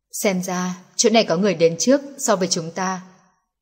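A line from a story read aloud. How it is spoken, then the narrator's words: Very quiet. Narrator (Vietnamese): Nelson cũng rất nhỏ giọng nói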